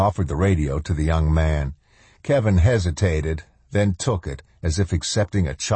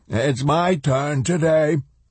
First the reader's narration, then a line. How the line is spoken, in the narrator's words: the old man cried out, his eyes shining